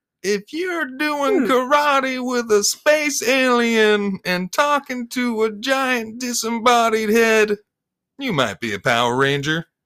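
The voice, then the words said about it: Imitates another person's voice. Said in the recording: “doing a Jeff Foxworthy impression?”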